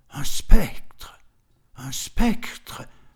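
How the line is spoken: Muffled murmur. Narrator (French): murmura-t-il d'une voix étouffée

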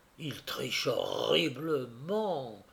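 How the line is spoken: Low-voiced reply. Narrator (French): répondit-il à voix basse

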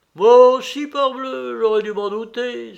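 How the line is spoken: Exclaimed. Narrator (French): s'écria Binos

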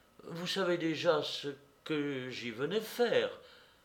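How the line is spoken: Embarrassed murmur. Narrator (French): murmura mademoiselle Monistrol assez embarrassée

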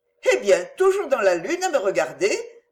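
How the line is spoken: Laughing cheerfully. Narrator (French): dit-elle en riant gaiement

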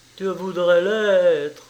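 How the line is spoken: Sobbed. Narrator (French): sanglota Rutter

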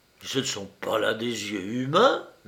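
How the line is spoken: Student murmuring. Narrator (French): murmura l'étudiant

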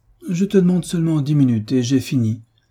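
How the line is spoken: Pleading. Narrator (French): reprit Frédéric d'un ton suppliant

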